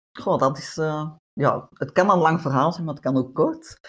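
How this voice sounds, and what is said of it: Netherlands Dutch accent. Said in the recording (Dutch): “Ik hoor ook een Nederlands accent... dat Nederlands accent”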